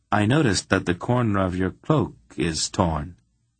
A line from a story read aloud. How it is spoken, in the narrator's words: Geryon said, in an almost neutral tone